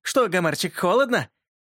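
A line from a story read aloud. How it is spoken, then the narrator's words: Snide, mocking. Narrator (Russian): ехидно проговорил Юрка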